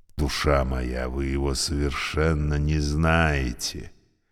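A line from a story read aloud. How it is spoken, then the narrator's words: Insinuating warning from lift. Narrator (Russian): предостерег вкрадчиво лифт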